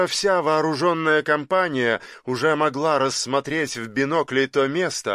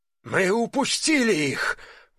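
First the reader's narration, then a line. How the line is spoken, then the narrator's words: Breathless exhale. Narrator (Russian): выдохнул Антон Антонович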